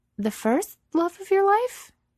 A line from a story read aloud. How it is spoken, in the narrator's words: Her voice wavers a bit